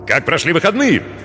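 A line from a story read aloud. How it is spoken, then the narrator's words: Barking shout. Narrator (Russian): гаркнул он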